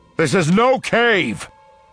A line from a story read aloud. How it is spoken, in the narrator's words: Han bellows